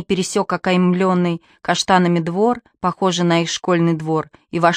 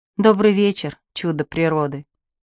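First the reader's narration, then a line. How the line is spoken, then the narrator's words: Soft. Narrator (Russian): сказала мягко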